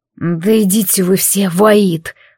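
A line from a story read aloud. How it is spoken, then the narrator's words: Groaning. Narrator (Russian): простонал он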